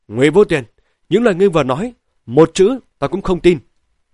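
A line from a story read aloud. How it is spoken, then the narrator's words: Furious, snapping. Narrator (Vietnamese): Hai mắt của hắn đỏ ngầu, gắt lên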